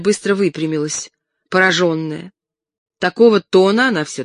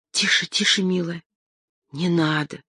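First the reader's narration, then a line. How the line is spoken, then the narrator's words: Frightened whisper. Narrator (Russian): испуганно зашептала Фроловская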